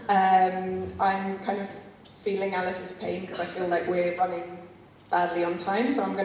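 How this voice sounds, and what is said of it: London English accent. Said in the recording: “I'm originally from London, in case you're all wondering about the accent”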